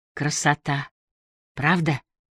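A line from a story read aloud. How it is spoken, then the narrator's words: Excited whisper. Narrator (Russian): с блеском в глазах прошептала Бергитта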